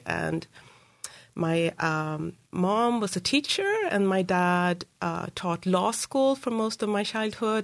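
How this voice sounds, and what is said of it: Swedish accent. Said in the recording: “What's your accent? So I grew up in Sweden”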